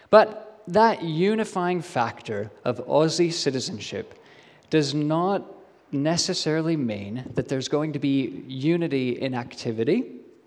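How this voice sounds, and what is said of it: Weird, muddled accent. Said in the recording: “my accent is really weird and muddled”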